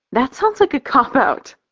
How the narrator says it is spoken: I laugh

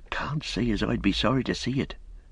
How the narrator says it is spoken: said Robin, lowering his voice

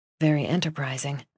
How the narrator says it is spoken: I said, dropping my voice

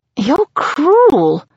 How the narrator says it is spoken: I moan

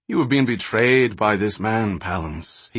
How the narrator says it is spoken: he continued evenly

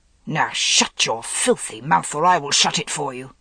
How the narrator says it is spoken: Gawain snarled

